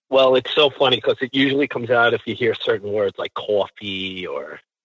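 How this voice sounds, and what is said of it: New York accent. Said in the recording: “there's that New York accent”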